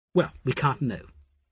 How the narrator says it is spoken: Asher said a little testily

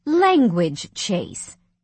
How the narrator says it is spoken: his mother said sternly

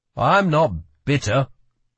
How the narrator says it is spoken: grumbled Parrish back

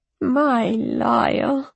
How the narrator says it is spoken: she said huskily

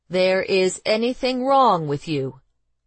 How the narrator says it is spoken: he said slowly

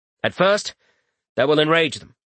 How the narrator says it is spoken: Rorik continued, his voice growing in certainty and conviction

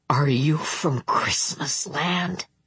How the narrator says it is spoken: Bing asked in a hushed voice

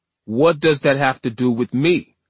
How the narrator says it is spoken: Orlando snapped

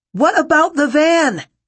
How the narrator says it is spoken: Solomon shouted

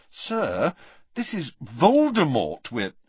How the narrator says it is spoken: said Harry, trying to keep his voice reasonable

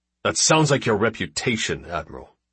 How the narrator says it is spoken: Randall snapped

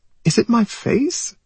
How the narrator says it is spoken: She whimpers

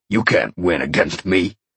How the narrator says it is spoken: the man growled

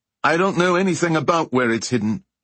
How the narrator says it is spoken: called out

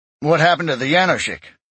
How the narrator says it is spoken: Eric asked sharply

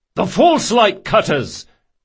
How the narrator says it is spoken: cried another man

